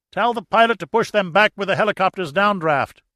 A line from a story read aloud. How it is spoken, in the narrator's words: Trout yelled at Morales